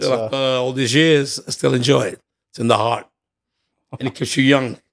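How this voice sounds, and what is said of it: Hoarse, strained voice. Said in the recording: “Sorry, I lost my voice. Been singing too much.”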